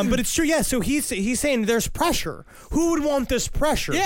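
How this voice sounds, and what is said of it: Usual voice. Nothing is said of it.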